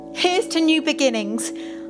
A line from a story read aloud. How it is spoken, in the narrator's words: I exclaimed with a splutter